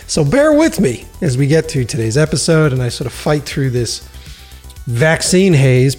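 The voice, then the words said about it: Weak, sick-sounding voice. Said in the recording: “Fevers, chills, aches and pains. You can hear it in my voice. I'm like a weak little kitten today.”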